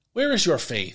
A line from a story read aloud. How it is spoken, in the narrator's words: he asked